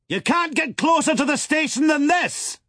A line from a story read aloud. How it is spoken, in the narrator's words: said the President, leaning forward to let his voice carry to the pilot